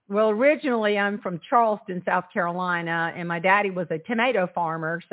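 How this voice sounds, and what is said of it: Slight Southern twang. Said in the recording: “you have a little twang”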